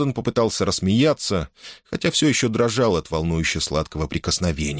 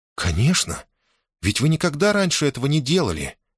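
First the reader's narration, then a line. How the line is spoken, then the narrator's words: Exclaiming. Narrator (Russian): воскликнула Лианна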